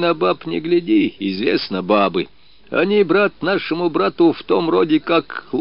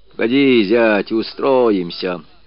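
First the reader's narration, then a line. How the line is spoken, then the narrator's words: Patronizing consoling tone. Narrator (Russian): утешал Яша покровительственным тоном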